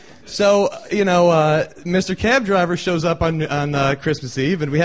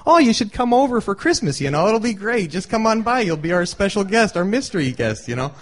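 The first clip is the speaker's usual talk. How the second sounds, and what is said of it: Sweet Midwestern Buffalo accent. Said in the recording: “in their sweet Midwestern Buffalo accent”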